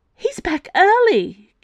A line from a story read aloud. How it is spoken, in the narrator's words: Kitty gasped